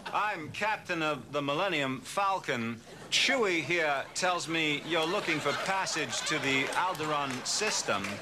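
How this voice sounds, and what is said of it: Christopher Walken impression, eccentric stresses. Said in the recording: “Walken's line readings are sometimes very eccentric, with accents on words that other actors would be unlikely to accent. Kevin Spacey did an impression of Walken ... Spacey playing Christopher Walken”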